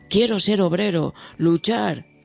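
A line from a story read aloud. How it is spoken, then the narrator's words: Passionate exclamation. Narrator (Spanish): exclama con pasión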